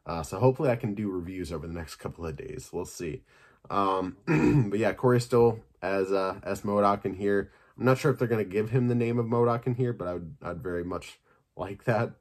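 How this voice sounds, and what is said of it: Slightly hoarse, sore-sounding voice. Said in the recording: “My throat's kind of getting a little sore. Might be able to hear that. I'm getting a little hoarse.”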